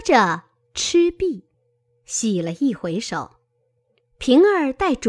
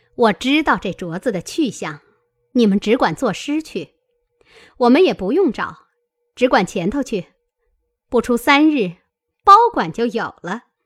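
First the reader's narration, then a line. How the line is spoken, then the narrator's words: Laughing. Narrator (Chinese): 凤姐儿笑道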